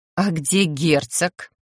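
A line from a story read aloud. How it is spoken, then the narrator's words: Muttered to oneself. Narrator (Russian): словно для себя буркнула я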